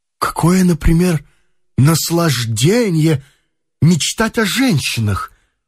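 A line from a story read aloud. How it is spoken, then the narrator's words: Exclamation. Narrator (Russian): воскликнул он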